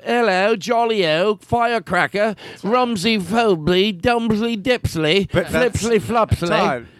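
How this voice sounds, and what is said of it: Put-on British accent. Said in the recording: “That's not how you talked before. ... Am I hearing just the slightest tinge of an accent? ... it sounds like you're doing a British accent.”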